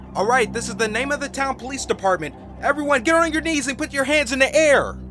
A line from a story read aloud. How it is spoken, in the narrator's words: a voice called out